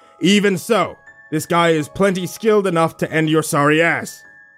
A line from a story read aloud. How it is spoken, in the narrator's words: Fake Mark shouted with a wicked grin